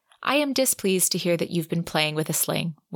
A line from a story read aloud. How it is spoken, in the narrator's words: Winter said calmly